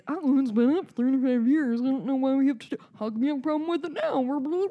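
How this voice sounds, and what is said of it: Impression of a Christian lawyer. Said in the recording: “That's what I think all Christian lawyers sound like ... That was a good impression.”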